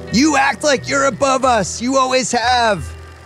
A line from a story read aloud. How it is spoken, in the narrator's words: flips out during the near plane crash berates finally screams